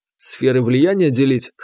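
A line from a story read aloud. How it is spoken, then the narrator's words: Snorting. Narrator (Russian): хмыкнул я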